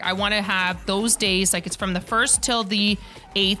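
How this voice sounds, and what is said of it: Loud, excited, near-yelling speech. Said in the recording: “I'm yelling. Am I yelling? ... A little bit. ... I'm going to slow it down. I'm just excited”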